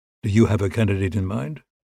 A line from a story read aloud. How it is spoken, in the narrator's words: asked Gabriel